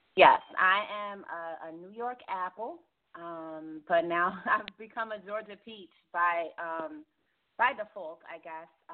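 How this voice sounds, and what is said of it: New York accent. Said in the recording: “I'll always have my New York roots. Can't ever shake this accent.”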